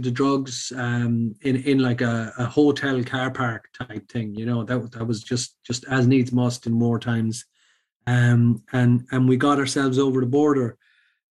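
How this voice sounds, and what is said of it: Irish accent. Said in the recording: “he heard my accent. He said, hey, are you Irish? ... I said, yeah ... I said, Sligo.”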